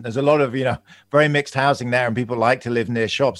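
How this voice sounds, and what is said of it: London English accent. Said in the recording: “I'm from London. You can probably hear my accent.”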